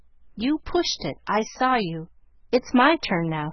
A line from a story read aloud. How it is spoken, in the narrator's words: said Joe sharply